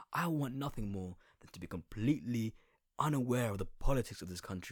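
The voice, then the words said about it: Essex English accent. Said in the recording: “Brown people with a fucking Essex accent like me.”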